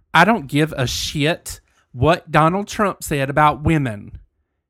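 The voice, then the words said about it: Put-on country accent. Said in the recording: “in my country voice”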